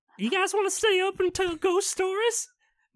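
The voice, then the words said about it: Imitates a cartoon character's voice. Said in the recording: “I've changed his accents 3 times. ... Now I'm Hubert from Family Guy.”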